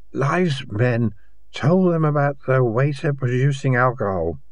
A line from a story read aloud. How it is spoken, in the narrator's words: he said thickly